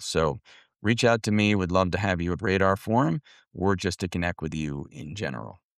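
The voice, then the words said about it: Unwell, impaired speaking voice. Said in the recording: “Hope your voice gets better. ... It can only get better.”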